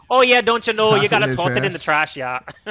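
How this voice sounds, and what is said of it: Put-on Fargo Midwest accent. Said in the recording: “Like a Midwest. That's like that Fargo Midwest accent.”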